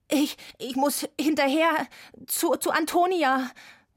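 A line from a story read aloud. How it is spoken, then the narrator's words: Gasping. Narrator (German): japste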